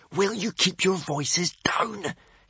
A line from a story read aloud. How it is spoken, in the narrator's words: hissed Hiccup in a panic